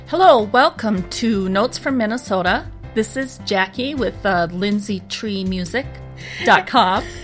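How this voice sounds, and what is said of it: Formal radio announcer voice. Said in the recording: “You sound so formal. ... that was my radio voice”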